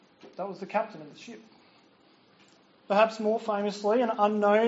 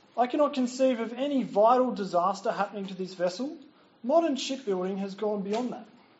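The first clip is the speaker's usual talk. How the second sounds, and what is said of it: Put-on English accent. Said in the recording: “put on an English accent.”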